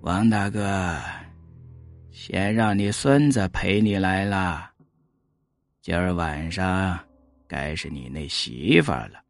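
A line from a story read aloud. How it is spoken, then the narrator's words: Muttering. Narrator (Chinese): 老吴喃喃的说道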